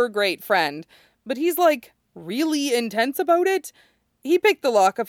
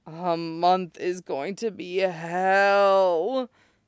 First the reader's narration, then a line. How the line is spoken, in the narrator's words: Tetsuro groans, as if realizing the same thing